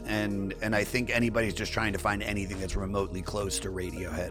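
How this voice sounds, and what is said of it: Hoarse, strained voice. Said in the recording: “God, my voice is gone. I can't even talk. ... I've got nodules and inflammation”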